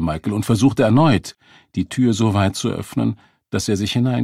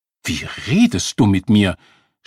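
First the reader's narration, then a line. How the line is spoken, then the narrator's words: Woman snapping back. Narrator (German): schnauzte die Frau zurück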